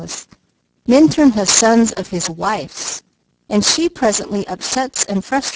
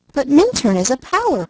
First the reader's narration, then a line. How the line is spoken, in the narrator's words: cried the girl